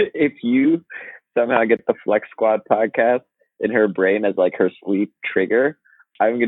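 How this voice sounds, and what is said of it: Usual voice. Nothing is said of it.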